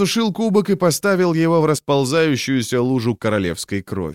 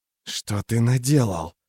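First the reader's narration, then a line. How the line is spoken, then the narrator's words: Whisper. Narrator (Russian): прошептал Кальдер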